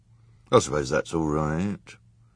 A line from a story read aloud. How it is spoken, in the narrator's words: grumbled someone